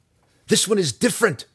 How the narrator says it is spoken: Zack cried

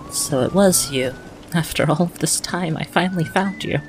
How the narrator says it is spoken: She looks at you and softly says

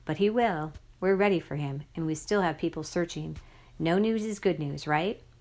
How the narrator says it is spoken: she said calmly

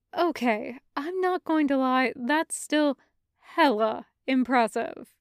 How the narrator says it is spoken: said

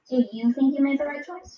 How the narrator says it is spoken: She asked softly

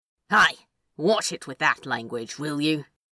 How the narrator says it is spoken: He snapped

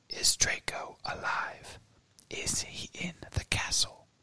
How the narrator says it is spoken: The whisper was barely audible

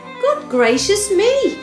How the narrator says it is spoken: cried a witch

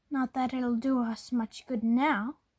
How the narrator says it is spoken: she snarled

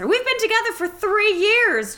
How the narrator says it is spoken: Josh wailed

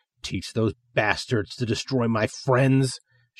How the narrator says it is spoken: she growls

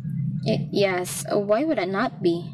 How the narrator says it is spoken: I stammered

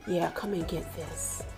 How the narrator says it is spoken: Ronald whispered

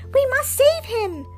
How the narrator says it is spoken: Pinocchio cried

